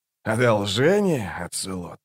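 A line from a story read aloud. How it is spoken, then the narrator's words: Soft laugh. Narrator (Russian): Он тихо рассмеялся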